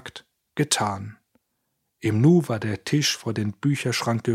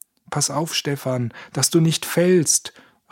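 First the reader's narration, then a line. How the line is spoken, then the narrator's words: Called out. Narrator (German): rief Georg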